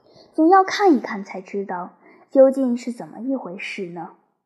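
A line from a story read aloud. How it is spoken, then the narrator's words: Sighing. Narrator (Chinese): 还叹息道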